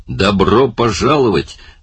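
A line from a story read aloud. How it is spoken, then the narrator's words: Barked. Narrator (Russian): рявкнул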